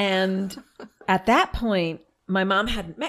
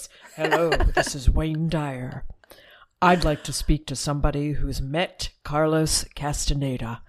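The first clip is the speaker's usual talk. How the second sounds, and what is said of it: Imitates another person's voice. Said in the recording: “I can't even do the voice.”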